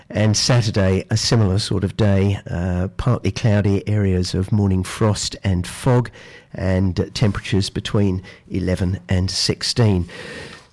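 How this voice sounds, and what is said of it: Voice sounds like he has a cold. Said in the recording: “as you can possibly tell from my voice, this is the time when you get cold and flu”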